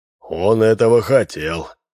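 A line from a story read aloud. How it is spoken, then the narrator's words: Gloomy. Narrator (Russian): мрачно сказал Минц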